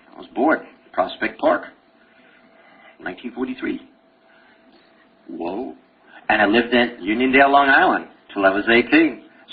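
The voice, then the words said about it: Brooklyn accent. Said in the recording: “you got a Brooklyn accent ... I can talk Brooklynese anytime I want”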